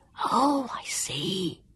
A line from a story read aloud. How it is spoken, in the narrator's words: Jonathan whispered